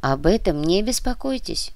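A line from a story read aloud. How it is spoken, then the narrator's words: Calm reply. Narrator (Russian): спокойно ответил Корнилов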